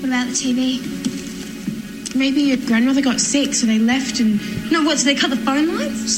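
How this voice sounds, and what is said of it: Australian accent. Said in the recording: “they're Australian kids, so they're going to have Australian accents.”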